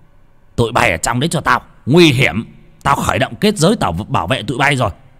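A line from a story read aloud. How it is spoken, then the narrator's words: Sharp shout. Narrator (Vietnamese): ông thầy út quát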